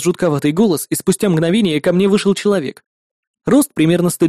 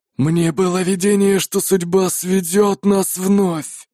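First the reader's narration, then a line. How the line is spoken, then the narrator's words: Hoarse rasp. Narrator (Russian): прохрипел он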